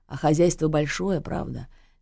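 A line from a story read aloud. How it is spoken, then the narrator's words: Sighing. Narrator (Russian): Лиза вздохнула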